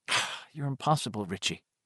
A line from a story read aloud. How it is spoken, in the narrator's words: Beverly said coldly